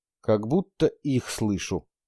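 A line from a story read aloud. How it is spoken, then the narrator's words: Quiet. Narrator (Russian): произнес он, наконец, тихо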